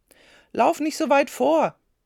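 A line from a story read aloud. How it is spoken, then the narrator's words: Father calling. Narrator (German): rief Martins Vater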